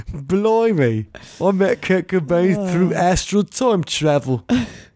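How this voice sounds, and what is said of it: Put-on English accent, Dick Van Dyke-like. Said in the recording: “I should have done it in an English accent ... Whenever I do an English accent, I just sound like Dick Van Dyke.”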